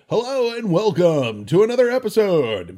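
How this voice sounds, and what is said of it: Announcer voice. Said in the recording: “I could do my announcer voice”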